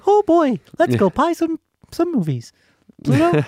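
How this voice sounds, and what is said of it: Mediocre cartoon mouse character voice. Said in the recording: “That's my Mickey impersonation. ... not very good. ... It's mediocre.”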